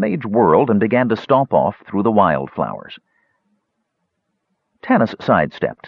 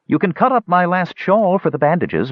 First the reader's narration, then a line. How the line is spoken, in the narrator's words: volunteered Yebladad in a soothing voice, seemingly anxious to resolve the dispute